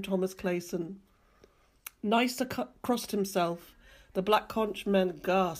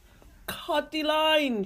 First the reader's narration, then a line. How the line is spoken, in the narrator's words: shouted Nysa Country